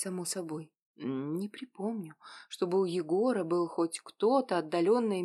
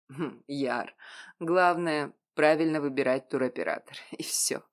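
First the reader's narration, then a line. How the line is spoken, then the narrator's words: Laughing. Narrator (Russian): рассмеялся Егор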